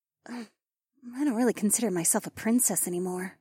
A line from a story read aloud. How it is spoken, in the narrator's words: Rachel muttered